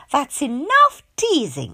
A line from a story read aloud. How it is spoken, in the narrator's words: she said crossly